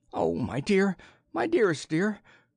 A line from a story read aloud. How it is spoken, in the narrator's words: Choresus, who had laughed in battle, was sobbing on his breast